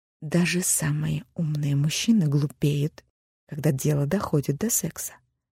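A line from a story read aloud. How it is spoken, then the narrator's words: Confiding whisper. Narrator (Russian): доверительным шепотом сообщила Алиса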